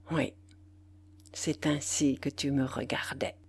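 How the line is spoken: Murmured. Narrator (French): murmura-t-il

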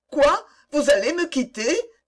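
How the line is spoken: Crying out. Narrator (French): s'écria Antoinette

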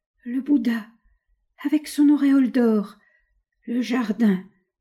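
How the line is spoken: Weak stammer. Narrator (French): bégaya-t-il d'une voix faible

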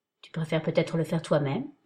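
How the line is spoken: Stirring, sensual murmur. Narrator (French): murmura-t-il avec une voix qui chamboula mes sens

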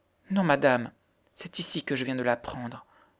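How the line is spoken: Stammered, nearly inarticulate. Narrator (French): balbutia la pauvre fille d'une voix presque inarticulée

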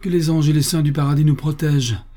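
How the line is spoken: Exclaimed. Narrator (French): s'écria George

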